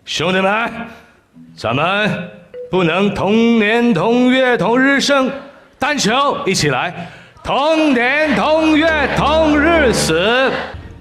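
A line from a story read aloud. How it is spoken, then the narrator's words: Group shout in unison. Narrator (Chinese): 一班男人……一起大喊一句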